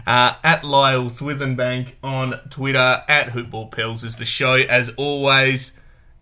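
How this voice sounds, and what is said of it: Slight drawl, slightly slurred words. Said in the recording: “I was slurring my words again a bit ... I do tend to drawl a little bit when I speak”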